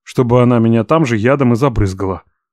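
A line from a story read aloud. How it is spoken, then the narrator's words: Snort. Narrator (Russian): хмыкнул я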